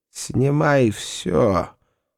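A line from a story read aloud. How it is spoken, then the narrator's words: Hoarse voice. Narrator (Russian): сказал хриплым голосом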